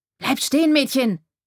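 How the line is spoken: Calling out. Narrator (German): rief

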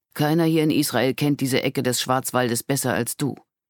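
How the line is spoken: Added aloud. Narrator (German): Laut fügte er hinzu

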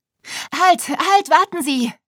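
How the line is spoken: Panicked shout. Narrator (German): rief Wiebke panisch, während sie sich gegen die Fliehkräfte nach vorn kämpfte

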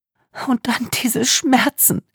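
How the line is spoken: Sobbing. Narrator (German): setzte Wagenbach schluchzend hinzu

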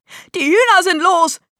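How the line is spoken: Shrieking. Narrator (German): kreischte er

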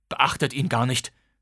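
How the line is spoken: Father hissing. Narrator (German): zischte mein Vater

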